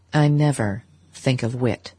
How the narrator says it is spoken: said Dr

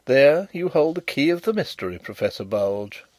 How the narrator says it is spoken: interposed Carrados quietly

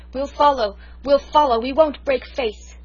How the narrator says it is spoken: The soldiers cheered her like mad and cried

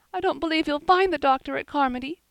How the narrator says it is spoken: sobbed Diana

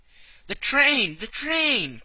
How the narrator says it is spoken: cried he

